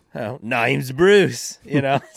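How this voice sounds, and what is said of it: Put-on Australian accent. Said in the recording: “hearing an Australian accent, like the shark in Finding Nemo”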